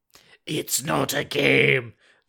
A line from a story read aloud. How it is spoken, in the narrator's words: the alien says in a hollow, mechanical voice